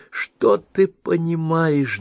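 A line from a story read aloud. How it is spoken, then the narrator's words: Through sobs. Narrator (Russian): донесло сквозь рыдание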